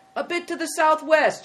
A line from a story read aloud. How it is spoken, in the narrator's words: shouted the innkeeper